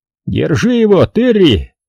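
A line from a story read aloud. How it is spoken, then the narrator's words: Shout through bloody mouth. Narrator (Russian): крикнул, не обращая внимания на хлынувшую изо рта кровь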